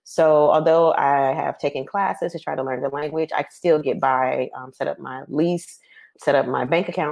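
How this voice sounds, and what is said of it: American accent. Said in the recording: “they hear my accent, American accent”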